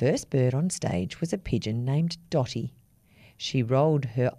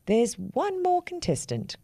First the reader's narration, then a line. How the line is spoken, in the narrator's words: cried the big black crow